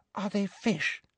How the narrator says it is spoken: breathed Ginny

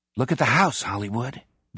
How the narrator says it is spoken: Doc murmurs

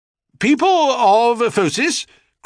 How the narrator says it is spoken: cried the king

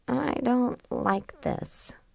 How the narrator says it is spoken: she murmured

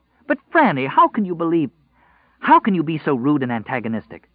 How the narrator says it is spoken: she asked hotly

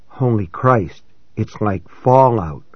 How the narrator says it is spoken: I whispered

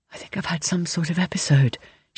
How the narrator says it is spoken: she says in barely a whisper

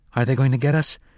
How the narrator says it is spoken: the boy asked calmly

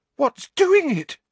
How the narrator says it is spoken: Parvati demanded in a terrified voice

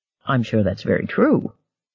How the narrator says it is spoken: Gardner said dryly

